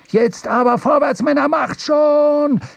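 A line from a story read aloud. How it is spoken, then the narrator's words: Shouted, puffing smoke. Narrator (German): schrie Stubb, wobei er blubbernd Rauchwolken ausstieß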